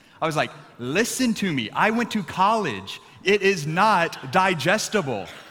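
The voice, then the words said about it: Raised, louder voice. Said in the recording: “raising my voice”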